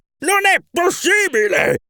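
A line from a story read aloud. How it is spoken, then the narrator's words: Shouted. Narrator (Italian): grida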